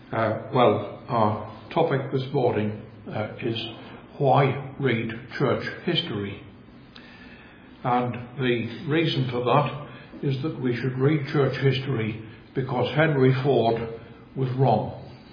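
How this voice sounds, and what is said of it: Northeast English Sunderland accent. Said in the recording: “I come from Sunderland in the northeast of England. And if you're wondering why my accent is rather strange for these parts, that is the reason why.”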